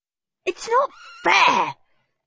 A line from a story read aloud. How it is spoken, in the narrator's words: shrieked Horrid Henry